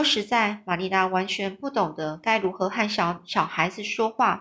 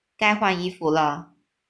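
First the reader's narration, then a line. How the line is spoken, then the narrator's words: Cold. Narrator (Chinese): 玛丽拉冷冷的说的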